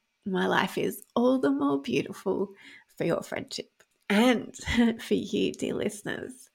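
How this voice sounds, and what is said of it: Vocal fry, tearful voice. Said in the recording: “my vocal fry ... in this episode where I've been crying”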